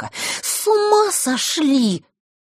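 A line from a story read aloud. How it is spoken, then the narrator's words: Hissed. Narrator (Russian): прошипела она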